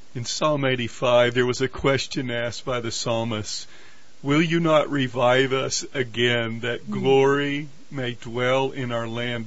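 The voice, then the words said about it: Polished radio announcer voice. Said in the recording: “radio voice ... I can tell by your voice”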